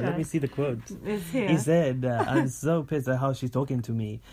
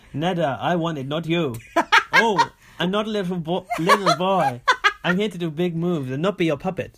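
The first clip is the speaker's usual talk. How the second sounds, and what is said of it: Put-on French accent. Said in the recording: “I'm going to struggle with the French accent ... Not bad ... We'll work on the French accent”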